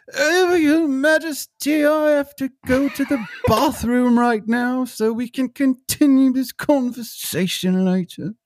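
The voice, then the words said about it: Imitates another person's voice. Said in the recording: “Gillian Anderson as Margaret Thatcher. Although her voice drives me nuts.”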